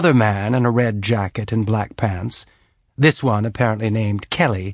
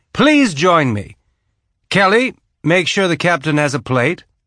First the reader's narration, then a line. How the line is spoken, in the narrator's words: High Consul Winston Duarte, absolute military ruler of Laconia, called out